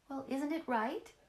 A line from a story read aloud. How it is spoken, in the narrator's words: she asked eagerly